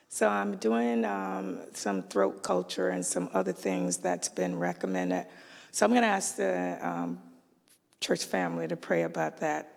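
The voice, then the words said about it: Raspy, froggy voice. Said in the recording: “I have that same frog ... my voice is not where my voice should be ... I've always had a raspy voice, but it's worse.”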